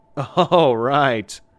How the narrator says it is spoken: I laughed awkwardly

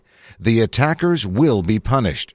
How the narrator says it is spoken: she said

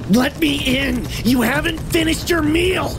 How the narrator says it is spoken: screamed

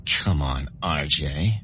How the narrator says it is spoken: she giggled

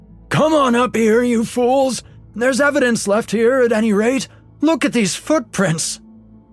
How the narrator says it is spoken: Crabshaw, his voice cracked with sobs, shouted back

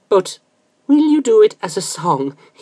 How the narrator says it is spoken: He asked eagerly

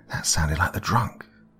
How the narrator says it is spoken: Ralph whispered

